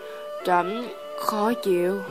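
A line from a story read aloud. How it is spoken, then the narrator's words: Soft spoken. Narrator (Vietnamese): Hắn khẽ nói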